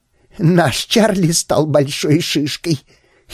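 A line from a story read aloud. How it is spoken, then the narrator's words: Giggling. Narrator (Russian): хихикнула она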